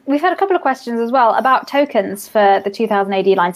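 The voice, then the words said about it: Posh British accent. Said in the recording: “my toffee accent ... we are a British RPG company”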